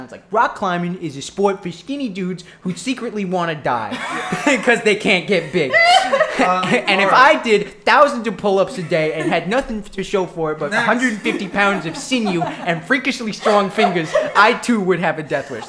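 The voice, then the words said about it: Imitates another person's accented voice. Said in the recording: “That's exactly how the guy sounds. ... What makes that extra funny is the accent. ... That's exactly how the guy sounds.”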